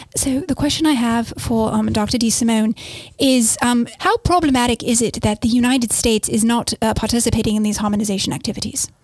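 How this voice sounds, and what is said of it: Put-on British accent. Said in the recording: “in a British accent, please.”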